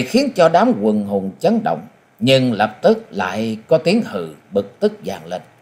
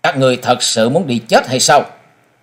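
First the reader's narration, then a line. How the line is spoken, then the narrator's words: Young man, cold. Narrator (Vietnamese): Mỹ thiếu niên lạnh lùng nói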